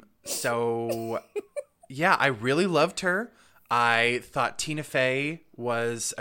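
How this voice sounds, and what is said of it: Usual voice. Nothing is said of it.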